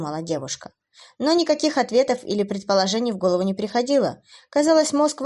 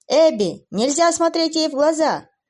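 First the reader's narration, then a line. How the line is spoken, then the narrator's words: Shouted. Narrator (Russian): закричал Уилл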